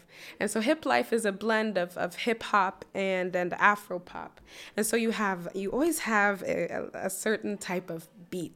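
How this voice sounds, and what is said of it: Accent becoming stronger. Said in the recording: “I think I heard your accent coming out.”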